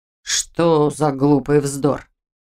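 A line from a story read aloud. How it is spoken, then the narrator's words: Grumbled. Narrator (Russian): проворчал Нейп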